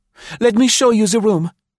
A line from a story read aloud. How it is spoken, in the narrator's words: begged